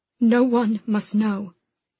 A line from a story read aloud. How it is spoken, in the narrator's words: she said, her voice breaking